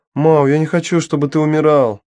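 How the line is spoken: Wailing scream. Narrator (Russian): завопила Дафна

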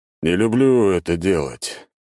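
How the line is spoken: Tired sigh. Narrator (Russian): устало вздохнул Август Никифорович

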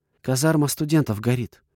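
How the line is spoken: Trembling voice. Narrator (Russian): поделилась девушка дрожащим голосом

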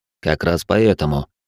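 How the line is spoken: Calm. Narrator (Russian): спокойно ответил я

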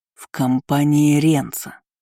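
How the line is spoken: Reminding through clenched teeth. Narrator (Russian): напомнил в свою очередь Айнан сквозь зубы

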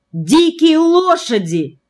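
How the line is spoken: Exclamation. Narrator (Russian): воскликнул Селиверстов

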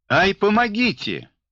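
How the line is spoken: Convulsed with laughter. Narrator (Russian): Алена Зайчикова заходилась от хохота

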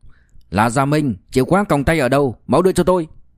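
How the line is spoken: Loud voice. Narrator (Vietnamese): đội trưởng Trần lớn tiếng nói

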